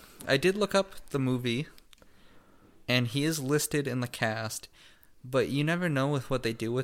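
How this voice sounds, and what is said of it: Usual voice. Nothing is said of it.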